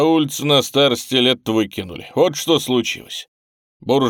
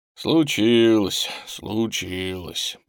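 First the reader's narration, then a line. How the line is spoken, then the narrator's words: Giant grumbling. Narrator (Russian): проворчал гигант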